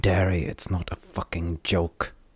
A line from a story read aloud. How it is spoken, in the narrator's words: Lon snarled back